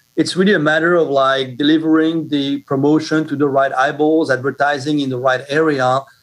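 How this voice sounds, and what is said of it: Parisian French accent. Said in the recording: “I can tell from your accent, you sound Parisian.”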